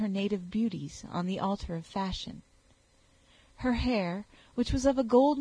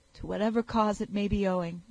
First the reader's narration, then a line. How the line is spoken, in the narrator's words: cried the youth